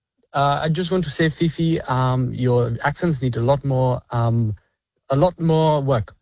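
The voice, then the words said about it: Indian accent. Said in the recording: “It's from the north of India... It does sound Indian... That's a very solid accent”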